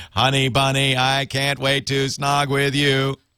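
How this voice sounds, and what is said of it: Robotic text-to-speech voice. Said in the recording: “it would read it in a robotic voice”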